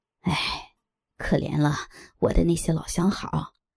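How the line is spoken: Sighing. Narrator (Chinese): 又叹气道

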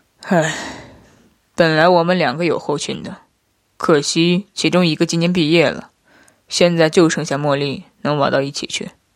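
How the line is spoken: Sighing. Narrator (Chinese): 夫君叹了一声，说道

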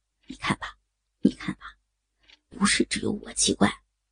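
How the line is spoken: Deliberate low murmur. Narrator (Chinese): 一直故意的低声说

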